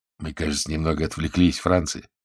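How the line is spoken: Soft remark. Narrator (Russian): мягко заметил Генрих

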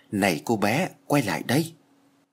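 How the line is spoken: Whisper from behind. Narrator (Vietnamese): tiếng thì thầm ở sau lưng

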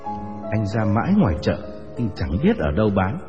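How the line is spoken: Smiling, calm reply. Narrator (Vietnamese): Tôi mỉm cười và thản nhiên đáp

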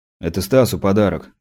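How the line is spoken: Hasty grumble. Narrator (Russian): буркнул я, опережая неудобные вопросы

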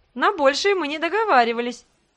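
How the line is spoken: Laughing. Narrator (Russian): Грег рассмеялся

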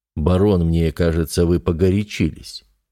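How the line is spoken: Conciliatory prince. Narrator (Russian): произнес князь примирительным тоном

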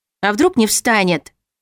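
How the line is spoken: Rather rude retort. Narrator (Russian): Парировала я довольно грубо

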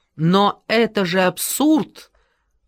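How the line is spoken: Shouted. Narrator (Russian): прокричал Хопкинс

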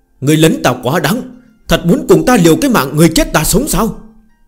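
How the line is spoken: Angry and aggrieved. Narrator (Vietnamese): Trong thanh âm của Lệ Anh có chút giận dữ, lại có chút ủy khuất

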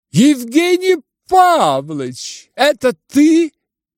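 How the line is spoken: Sudden ringing shout. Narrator (Russian): крикнул вдруг звонкий прекрасный голос

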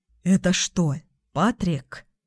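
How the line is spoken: Whispered. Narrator (Russian): Прошептал Ник

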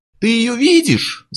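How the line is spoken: Yelling. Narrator (Russian): завопил Берне

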